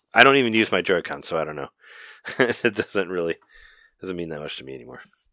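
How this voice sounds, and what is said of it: Low voice from a cold. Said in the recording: “as you can probably hear, I've had a cold for the past few days... my voice is all low again”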